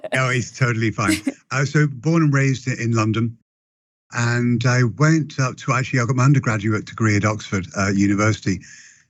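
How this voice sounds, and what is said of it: British accent. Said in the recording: “I love the accent. I love British accent.”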